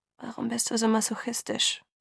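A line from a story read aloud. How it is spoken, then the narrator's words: Murmured. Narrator (German): murmelte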